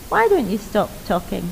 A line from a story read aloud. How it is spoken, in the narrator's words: The shy one coolly said